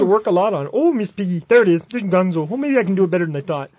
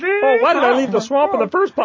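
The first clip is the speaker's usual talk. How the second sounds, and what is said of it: Kermit the Frog voice, Minnesota-style. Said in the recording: “It's like Kermit from Fargo.”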